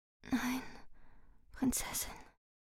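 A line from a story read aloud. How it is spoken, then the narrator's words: Breathed softly. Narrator (German): hauchte die Gräfin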